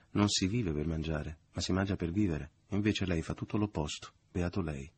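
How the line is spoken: Ironic, excited. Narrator (Italian): la madre, dichiarando con voce ironica e esaltata

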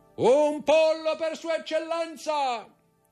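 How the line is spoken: Bandit shouting at full lungs. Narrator (Italian): Il brigante, che si chiamava Peppino, si voltò e gridò con tutta la forza dei suoi polmoni

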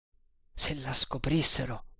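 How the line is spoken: Trembling murmur. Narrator (Italian): mormorò tremando

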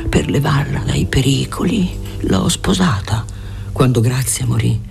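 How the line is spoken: Old man's sigh. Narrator (Italian): sospirò alla fine il vecchio

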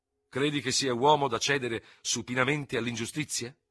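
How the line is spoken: Angry question. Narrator (Italian): chiese con voce irosa

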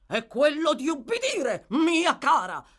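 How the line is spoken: Thundering. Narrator (Italian): tuonò il signor Bumble

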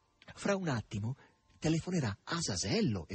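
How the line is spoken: Exclaiming. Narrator (Italian): esclamò Margherita

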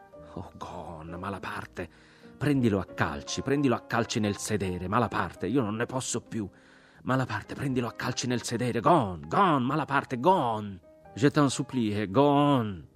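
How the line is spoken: Stammering. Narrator (Italian): balbettava Jack

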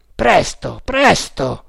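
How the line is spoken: Captain shouting. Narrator (Italian): gridò il capitano

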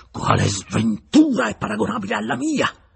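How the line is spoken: Angry shout. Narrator (Italian): gridò con rabbia il signor Torrenal

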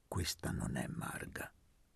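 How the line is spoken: Quiet voice. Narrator (Italian): disse Elpidio sottovoce a Luca

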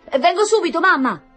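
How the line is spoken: Joyful shout. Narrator (Italian): gridò Tonino pieno di gioia

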